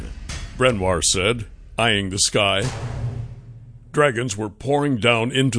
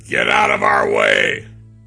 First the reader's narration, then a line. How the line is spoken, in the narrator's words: Brenwar growled